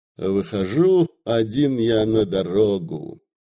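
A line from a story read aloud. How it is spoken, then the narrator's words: Carefree humming. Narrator (Russian): Он как бы устыдившись малодушия, беспечно замурлыкал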